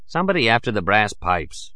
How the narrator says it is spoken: I scoffed

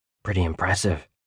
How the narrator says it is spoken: Dan whispered

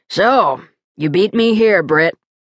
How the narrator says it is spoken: he acknowledged, his voice a gravelly rumble

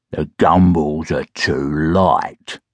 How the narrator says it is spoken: growled

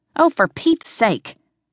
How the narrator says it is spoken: snapped

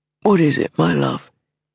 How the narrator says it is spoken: murmured sleepily

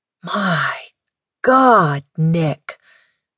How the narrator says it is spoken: murmured

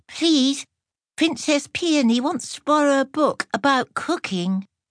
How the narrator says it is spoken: a small and trembling page boy … quavered

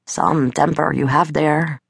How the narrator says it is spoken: he murmured

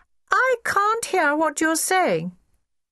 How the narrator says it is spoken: Privy in a very loud, clear voice

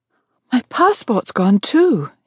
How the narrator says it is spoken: she gasped

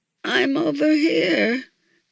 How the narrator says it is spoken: exclaimed Santa weakly

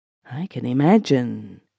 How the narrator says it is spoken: she murmured appreciatively

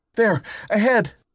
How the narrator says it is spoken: Bertie cried

